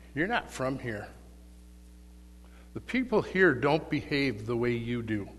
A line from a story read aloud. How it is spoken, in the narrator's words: quite calmly the dying man said to her